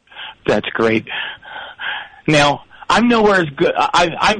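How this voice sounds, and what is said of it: Usual voice. Nothing is said of it.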